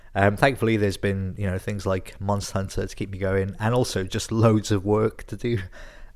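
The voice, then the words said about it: Voice sounds a bit off, unwell. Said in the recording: “You can probably tell my voice is a bit weird. I've not been feeling too well this week”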